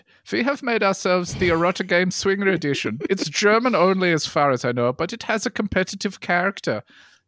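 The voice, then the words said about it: Put-on German accent. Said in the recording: “Let me do this in the right accent. ... You imagine German.”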